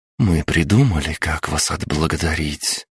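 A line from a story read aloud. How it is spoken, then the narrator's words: Whisper. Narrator (Russian): прошептала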